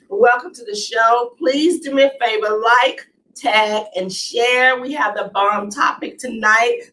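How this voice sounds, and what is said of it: Raspy, sniffly voice. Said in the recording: “these allergies are the bomb tonight ... forgive me for the sniffling and my sexy voice. This is my sexy voice. My throat gets a little raspy.”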